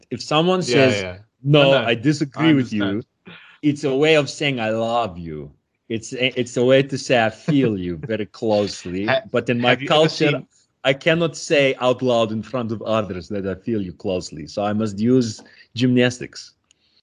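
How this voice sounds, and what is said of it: Put-on Russian accent. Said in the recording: “you must think in the Russian accent.”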